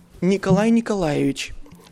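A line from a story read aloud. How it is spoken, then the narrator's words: Calm. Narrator (Russian): спокойно сказал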